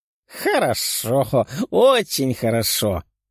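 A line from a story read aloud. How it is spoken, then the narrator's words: Relieved laughing old man. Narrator (Russian): Старик рассмеялся, потому что теперь ему все стало невероятно просто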